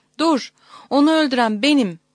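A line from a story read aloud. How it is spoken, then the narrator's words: Crying out. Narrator (Turkish): diye haykırmış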